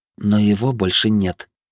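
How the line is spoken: Through gritted teeth. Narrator (Russian): процедила Вероника

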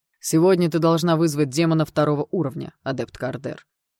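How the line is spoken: Unpleasant tone. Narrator (Russian): своим по обыкновению неприятным тоном сказал магистр Делмир

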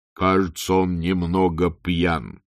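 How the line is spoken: Plain. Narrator (Russian): сказал Мурков

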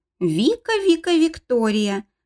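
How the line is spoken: Mocking drawl. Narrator (Russian): насмешливо протянул он

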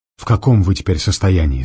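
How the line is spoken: Plain question. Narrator (Russian): спросил Мизинов

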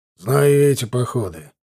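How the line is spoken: Displeased grumbling. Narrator (Russian): недовольно проворчал Юрий Иванович

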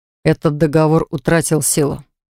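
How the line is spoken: Quiet answer. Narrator (Russian): тихо ответил Даррен

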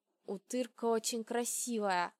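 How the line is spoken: Whisper. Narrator (Russian): прошептал Аршхан

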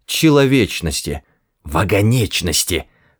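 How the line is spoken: Hissing. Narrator (Russian): прошипел Форд

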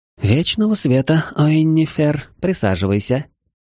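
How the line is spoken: Unexpectedly tender cooing. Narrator (Russian): Неожиданно ласково проворковала госпожа ректор

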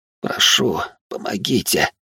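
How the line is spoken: Whisper. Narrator (Russian): раздался шепот

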